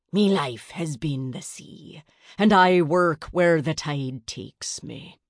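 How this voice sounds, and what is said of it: Gruff pirate-like accent. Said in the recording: “scowled and spoke with a gruff accent.”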